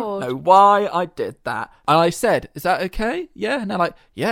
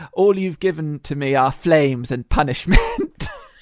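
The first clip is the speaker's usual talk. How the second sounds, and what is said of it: Put-on slight German accent. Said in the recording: “a little bit of a German twang”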